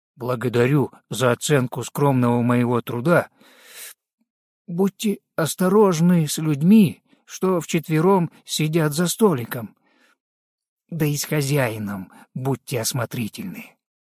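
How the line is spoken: Quiet. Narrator (Russian): тихо произнес

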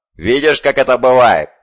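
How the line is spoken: Lion's growl. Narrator (Russian): прорычал лев

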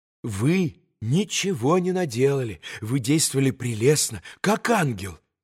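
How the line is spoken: Quick rapturous whisper. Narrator (Russian): Быстро и восторженно зашептала горестному Алеше госпожа Хохлакова

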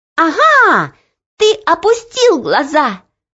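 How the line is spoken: Triumphant shout. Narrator (Russian): торжествующе закричала Оля

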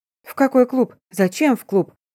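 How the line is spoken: Confused speech. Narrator (Russian): Растерянно проговорила я

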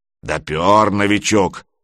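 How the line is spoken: Approving booming spectator. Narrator (Russian): одобрительно прогудел кто-то из зрителей

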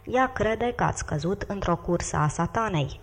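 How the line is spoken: Plain. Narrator (Romanian): zise viceregele

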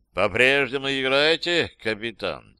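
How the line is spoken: Indifferent question. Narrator (Russian): Безразличным тоном спросил Бернштайн

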